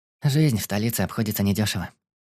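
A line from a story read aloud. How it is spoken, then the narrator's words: Sigh. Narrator (Russian): вздохнула Омна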